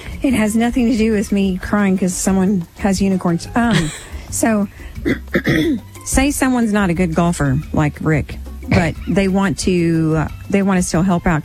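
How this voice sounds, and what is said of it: Hoarse, fading voice. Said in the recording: “I'm losing my voice for some reason.”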